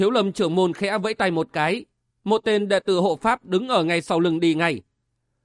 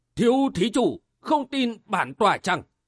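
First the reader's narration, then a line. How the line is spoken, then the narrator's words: Loud, displeased. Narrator (Vietnamese): Trưởng môn Thiếu Lâm thay đổi sắc mặt, lớn tiếng nói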